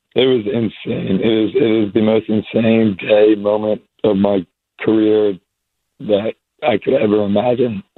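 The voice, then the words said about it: Strained voice from screaming. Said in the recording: “I was screaming. That's probably where my voice is still ... Rest up your voice.”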